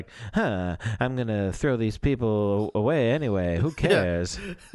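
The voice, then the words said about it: Imitates a TV character, very enunciated. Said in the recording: “my Fish Mooney impression ... That's a good Fish Mooney ... she talks very enunciately”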